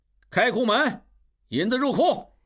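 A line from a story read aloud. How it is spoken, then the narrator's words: Loud. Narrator (Chinese): 应镇大声对刘小七、小栓说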